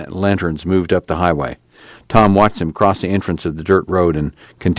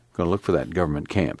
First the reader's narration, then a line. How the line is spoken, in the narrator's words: Tom said